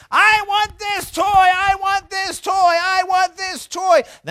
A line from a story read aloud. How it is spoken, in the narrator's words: The daughter starts screaming